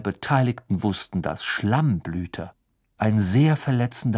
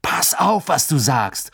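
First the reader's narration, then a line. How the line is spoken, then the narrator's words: Called out. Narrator (German): rief Ron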